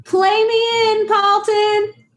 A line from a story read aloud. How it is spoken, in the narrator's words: yelling over my shoulder